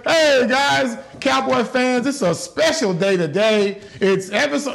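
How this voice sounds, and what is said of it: Imitates another person's voice. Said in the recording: “I'm doing my Bill Jones impersonation”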